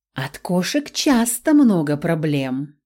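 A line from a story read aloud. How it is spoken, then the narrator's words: Sly purr. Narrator (Russian): мурлыкнула я, хитро заглядывая в глаза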